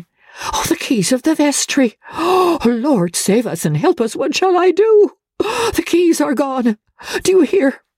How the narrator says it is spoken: cried the old man, in his agitation

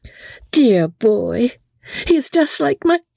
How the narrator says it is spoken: emotion choked her speech

